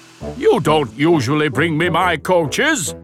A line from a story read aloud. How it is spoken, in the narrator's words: Gordon grumbled